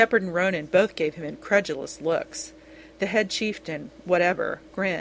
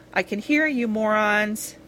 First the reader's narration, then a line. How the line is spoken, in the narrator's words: he laughed loudly